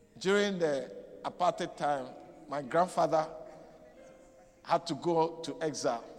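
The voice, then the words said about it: West African-influenced accent. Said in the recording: “I grew up in West Africa ... That's why my accent is different.”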